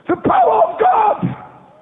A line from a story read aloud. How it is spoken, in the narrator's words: I shouted